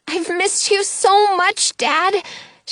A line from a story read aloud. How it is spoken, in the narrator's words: cries